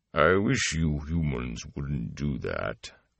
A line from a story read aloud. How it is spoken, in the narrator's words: rumbled a voice as deep as a drum